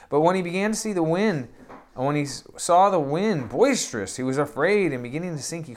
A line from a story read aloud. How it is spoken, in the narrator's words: he cried, saying